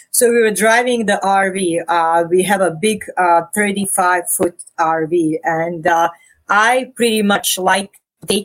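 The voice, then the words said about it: Non-Canadian foreign accent. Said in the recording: “I didn't think that was a Canadian accent I was hearing”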